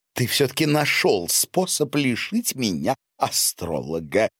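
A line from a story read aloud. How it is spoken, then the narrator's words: Angry, relieved laughter. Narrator (Russian): зло и облегченно рассмеялась графиня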